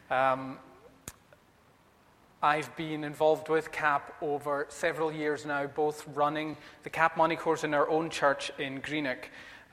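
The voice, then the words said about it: Western Isles Scottish accent. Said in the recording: “If you're trying to place the accent, I live in Inverkip, but I'm originally from Stornoway in the Western Isles”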